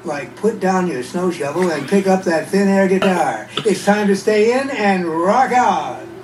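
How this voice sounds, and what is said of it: Radio DJ voice. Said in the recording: “my radio voice”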